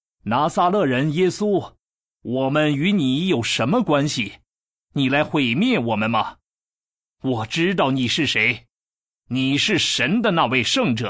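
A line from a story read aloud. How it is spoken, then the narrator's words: Possessed man crying out. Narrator (Chinese): 一个被巫灵附身的人喊叫，说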